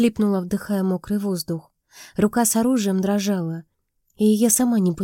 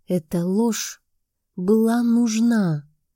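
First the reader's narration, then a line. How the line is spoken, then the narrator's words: Hoarse but firm. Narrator (Russian): Его слова звучали хрипло, но твердо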